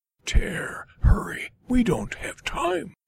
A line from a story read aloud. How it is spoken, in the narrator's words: Spare hissed